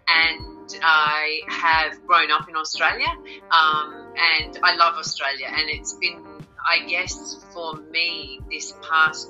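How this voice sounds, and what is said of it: Australian accent. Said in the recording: “I've lived here in Australia most of my life, as you can tell by the accent.”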